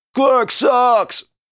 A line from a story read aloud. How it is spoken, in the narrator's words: one of them yelled